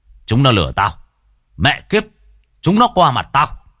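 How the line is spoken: Shouting captain. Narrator (Vietnamese): viên đội trưởng lúc ấy chỉ quát

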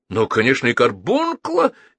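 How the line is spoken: Cheerful question. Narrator (Russian): весело спросил Рикошетников

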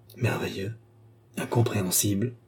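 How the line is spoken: Murmured. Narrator (French): murmura le cardinal

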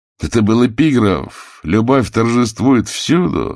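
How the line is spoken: Laughing. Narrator (Russian): засмеялся я

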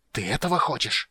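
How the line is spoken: Furious hiss. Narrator (Russian): прошипел он в ярости

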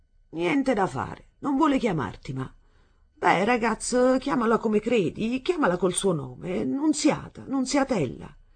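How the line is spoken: Indifferent, faintly mocking. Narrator (Italian): Egli disse in tono indifferente e quasi di lieve scherno verso di lei

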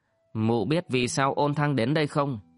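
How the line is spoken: Harsh, menacing. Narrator (Vietnamese): Ôn Thăng gằn giọng và nói

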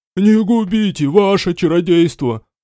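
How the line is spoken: Groaning older man. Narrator (Russian): Простонал тот, кто выглядел постарше

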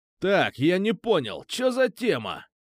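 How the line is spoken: Barked. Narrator (Russian): рявкнул

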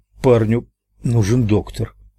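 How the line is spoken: Mumbling. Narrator (Russian): промямлил

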